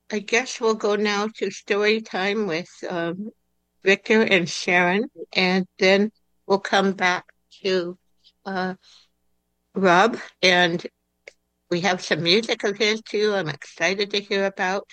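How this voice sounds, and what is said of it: Stuffy congested voice. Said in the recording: “my voice is so stuffy”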